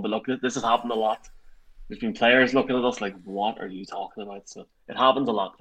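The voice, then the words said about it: Very thick accent. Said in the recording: “he's got a very thick accent”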